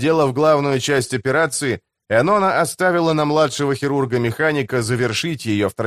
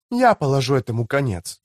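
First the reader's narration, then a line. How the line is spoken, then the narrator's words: Quiet, drowned by gunfire. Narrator (Russian): негромко отвечала она, так что ее голос тонул в грохоте орудийной стрельбы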